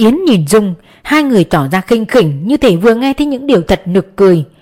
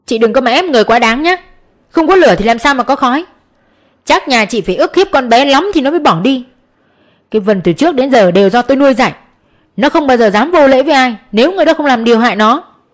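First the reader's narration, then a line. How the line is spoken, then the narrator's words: Furious loud shout. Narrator (Vietnamese): Ông ta đập bàn quát lớn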